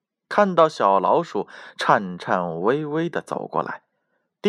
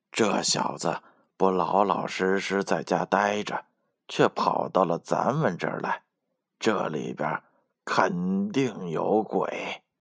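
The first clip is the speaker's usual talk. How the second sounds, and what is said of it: Quiet, whispered warning. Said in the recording (Chinese): “第三只狐狸小声提醒道”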